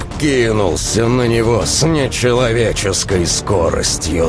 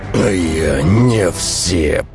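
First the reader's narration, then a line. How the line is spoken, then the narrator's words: Through gritted teeth. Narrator (Russian): процедил сквозь зубы огнецвет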